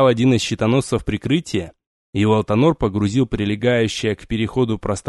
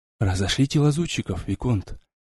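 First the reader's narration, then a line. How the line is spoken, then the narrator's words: Hushed, quiet order. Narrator (Russian): велел один другому, стараясь говорить тихо, дабы не тревожить покой спящих вокруг чародеев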